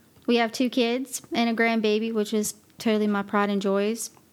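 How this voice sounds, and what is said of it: Slight Southern US accent. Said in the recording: “originally from Western North Carolina. Have a little bit of an accent ... I'm from the south”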